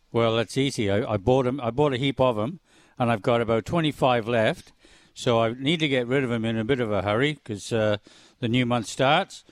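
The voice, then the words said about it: Welsh accent. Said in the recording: “where's the accent from?... This accent?... I was a Welshman... Welsh, yeah... everybody tells me, I thought I'm Scottish”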